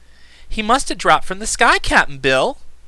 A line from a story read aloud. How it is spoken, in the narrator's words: she exclaimed